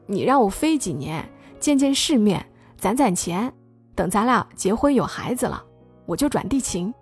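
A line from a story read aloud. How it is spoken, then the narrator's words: Smiling. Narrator (Chinese): 张景宇笑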